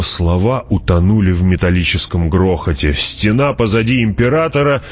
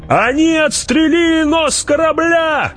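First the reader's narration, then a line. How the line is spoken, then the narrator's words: Shout. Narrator (Russian): крикнул кто-то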